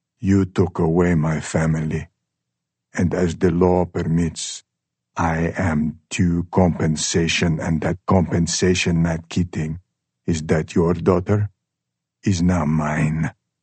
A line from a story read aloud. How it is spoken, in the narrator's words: He pauses and then says slowly and with firm clarity